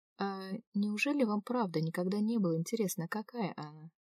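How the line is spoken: Normal voice fading to very quiet. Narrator (Russian): Если начала я еще нормальным голосом, то закончила совсем тихо

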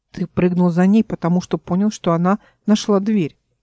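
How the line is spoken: Plain question. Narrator (Russian): спросил Родоборт

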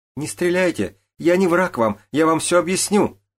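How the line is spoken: Girl screaming. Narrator (Russian): закричала девушка

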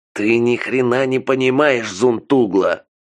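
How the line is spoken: Growling into phone. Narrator (Russian): прорычал в трубку Ицхак

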